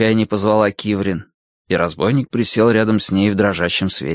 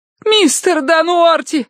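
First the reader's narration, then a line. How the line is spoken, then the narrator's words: Screaming. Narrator (Russian): завопила Киврин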